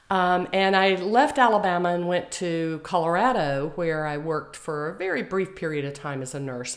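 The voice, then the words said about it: Slight Southern Alabama accent. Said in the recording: “Y'all may notice a little accent, even though I've been away for quite some time.”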